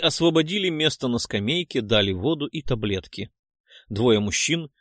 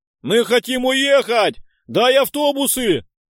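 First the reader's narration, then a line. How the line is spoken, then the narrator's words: Crowd shouting. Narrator (Russian): кричали люди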